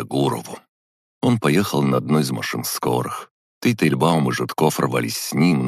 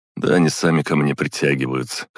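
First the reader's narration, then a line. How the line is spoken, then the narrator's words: Skeptical snort. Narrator (Russian): хмыкнул я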